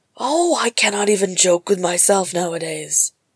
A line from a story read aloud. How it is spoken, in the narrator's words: growled Gimli in frustration